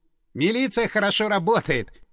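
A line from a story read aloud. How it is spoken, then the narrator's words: Snorted. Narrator (Russian): хмыкнул Стас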